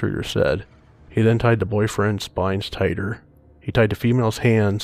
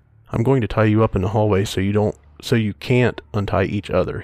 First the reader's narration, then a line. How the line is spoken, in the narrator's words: said